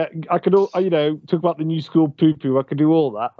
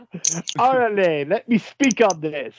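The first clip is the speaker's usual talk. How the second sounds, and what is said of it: Put-on plummy British accent. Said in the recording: “even in a plummy English accent ... in a British accent.”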